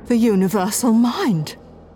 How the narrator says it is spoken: she gasped

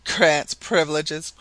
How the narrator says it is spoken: cried the Canadian scornfully

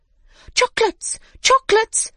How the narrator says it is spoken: they cried

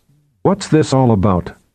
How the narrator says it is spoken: she asked the leader of the five in a steely tone

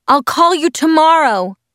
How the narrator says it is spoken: yelled

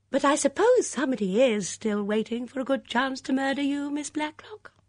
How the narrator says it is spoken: She'd be sure to say in that high, clear voice of hers

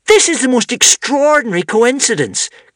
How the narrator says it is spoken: cried Wish excitedly

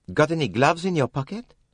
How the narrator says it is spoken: Poirot said sharply to Tim Allerton

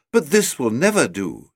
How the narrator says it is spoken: she exclaimed

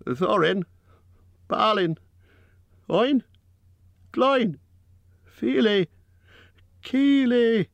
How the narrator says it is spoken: he cried as loud as he could

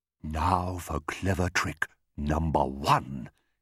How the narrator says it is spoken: he whispered to himself

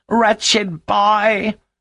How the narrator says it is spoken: cried Mrs

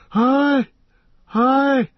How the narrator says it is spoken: wailed Legolas

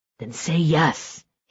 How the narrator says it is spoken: he said, his voice urgent and hoarse

